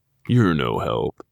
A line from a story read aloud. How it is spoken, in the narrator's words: Will grumbled